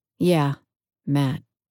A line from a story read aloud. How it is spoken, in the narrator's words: I said flatly